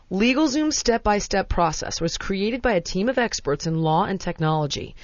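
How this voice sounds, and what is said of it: Formal professional announcer voice. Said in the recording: “I'm going to do my most professional voice now.”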